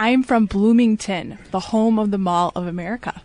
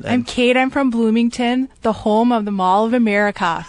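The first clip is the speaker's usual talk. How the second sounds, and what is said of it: Put-on Minnesota accent. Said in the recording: “your Minnesota accent? ... could you say that in a more Minnesota-y way? ... That's good.”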